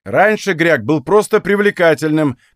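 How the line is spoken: Goblin shouting while fleeing. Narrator (Russian): крикнул гоблин, убегая

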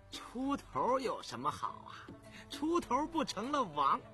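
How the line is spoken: Smiling. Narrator (Chinese): 侃儿眯着眼笑道

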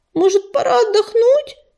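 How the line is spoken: Moaned. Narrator (Russian): простонала она

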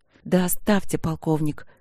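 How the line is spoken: Hissed. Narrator (Russian): она зашипела

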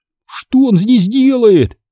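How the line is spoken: Shout. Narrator (Russian): закричал я

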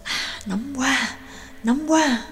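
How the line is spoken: Low muttering. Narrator (Vietnamese): Trương Lập và Nhạc Dương thấp giọng lẩm bẩm

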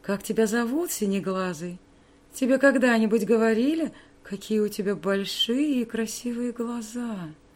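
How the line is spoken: Cooing. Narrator (Russian): проворковала Вивиан

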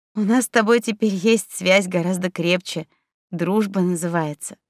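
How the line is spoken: Laughing. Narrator (Russian): рассмеялась на это девушка

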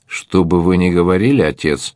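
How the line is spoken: Young woman, rather dry. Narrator (Russian): довольно сухо заметила девушка

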